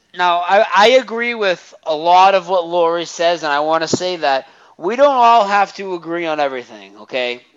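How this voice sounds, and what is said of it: Rhode Island / Boston-type accent. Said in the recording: “in Eastern Connecticut, they talk like you. It's not as much. It's more of a Rhode Island one ... They kind of have the Boston accent”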